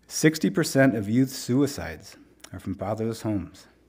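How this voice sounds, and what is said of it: Choked-up, emotional voice. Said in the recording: “I'm getting all choked up.”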